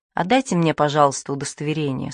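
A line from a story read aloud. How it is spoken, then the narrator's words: Calm. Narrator (Russian): спокойно сказала сестра Клотильда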